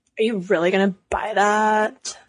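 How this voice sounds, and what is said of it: Mean, mocking bully voice. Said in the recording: “You did that voice a little too well”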